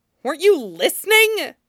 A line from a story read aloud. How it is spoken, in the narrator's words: Jung Chung snaps